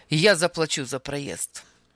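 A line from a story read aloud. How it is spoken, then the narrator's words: Sharp declaration. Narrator (Russian): заявил он резко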